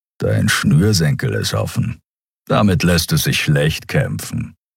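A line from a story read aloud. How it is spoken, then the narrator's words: Grumbling. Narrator (German): brummte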